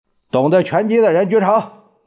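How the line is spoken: Loud. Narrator (Chinese): 胖子大声说

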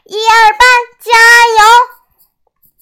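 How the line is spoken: Group shouting. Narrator (Chinese): 二班再喊

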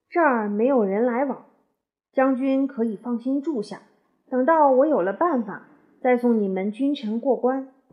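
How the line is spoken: Sighing, consoling. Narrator (Chinese): 东高公叹息了一会儿，劝解他说

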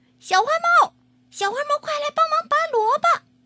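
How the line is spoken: Calling out. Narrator (Chinese): 小狗喊

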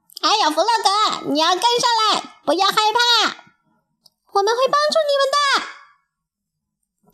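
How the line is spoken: Group shouting. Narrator (Chinese): 大家喊

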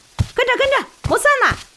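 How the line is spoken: Shouting while running. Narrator (Chinese): 一边跑一边喊

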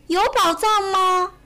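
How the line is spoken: Calling out. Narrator (Chinese): 弗洛格，小熊叫道

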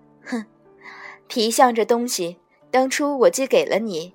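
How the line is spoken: Soft laugh. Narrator (Chinese): 轻笑道

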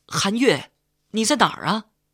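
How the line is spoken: Shouting. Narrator (Chinese): 喊声

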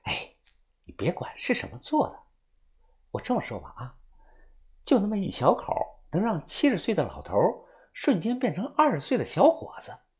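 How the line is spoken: Mysterious low whisper. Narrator (Chinese): 钱子涵神秘的一笑，小声的跟我说道

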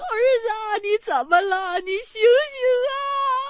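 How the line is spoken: Mother crying out in distress. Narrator (Chinese): 母亲……开始哭喊说

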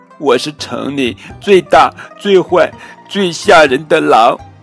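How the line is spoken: Sobbing. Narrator (Chinese): 毛坏坏抽泣着说

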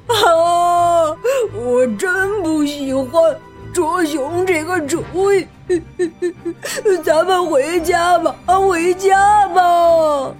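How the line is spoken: Crying. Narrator (Chinese): 小胖哭着说

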